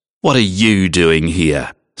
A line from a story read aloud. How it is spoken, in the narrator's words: Sid sneered